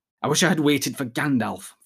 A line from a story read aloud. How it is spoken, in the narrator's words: Frodo muttered